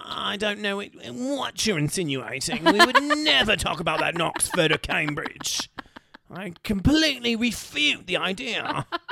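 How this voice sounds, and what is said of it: Snobby upper-class British accent. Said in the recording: “Why are you so good at the snobby, rich British man accent?”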